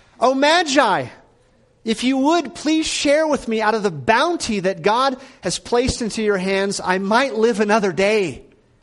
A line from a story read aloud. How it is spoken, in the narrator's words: the beggar cried out